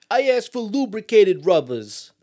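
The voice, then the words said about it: Exaggerated Long Island New York accent. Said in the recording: “he's got a terrible New York, Long Island my God, accent... So bad. It's so bad.”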